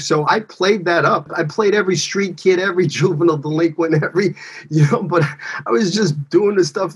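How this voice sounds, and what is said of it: Brooklyn street accent. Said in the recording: “I was straight out of Brooklyn, right off the streets... you got to get rid of your accent... this is who I am”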